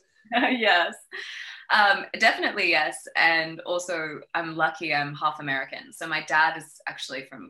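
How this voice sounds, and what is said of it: Slight Australian accent. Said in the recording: “people hear a little bit of an accent. So you are originally from Australia”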